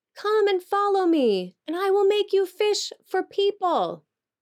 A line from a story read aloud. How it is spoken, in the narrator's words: Jesus called out